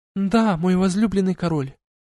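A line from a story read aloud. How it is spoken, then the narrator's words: Soft brightened exclamation. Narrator (Russian): Негромко воскликнула Айлани, мгновенно просветлев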